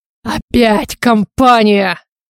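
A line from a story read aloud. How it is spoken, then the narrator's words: Near growl, snarling. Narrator (Russian): Почти прорычал Стивен, злобно ощерившись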